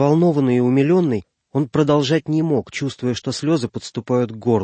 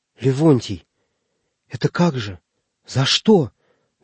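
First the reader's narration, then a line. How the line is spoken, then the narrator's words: Quavering voice, frail man. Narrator (Russian): дрогнувшим голосом начал было щупленький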